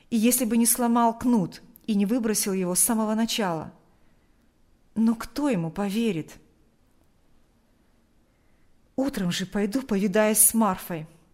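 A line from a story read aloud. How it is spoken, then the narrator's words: Plain. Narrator (Russian): сказал отец Кирилл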